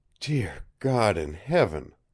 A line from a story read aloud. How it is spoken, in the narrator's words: breathed Jolly Roger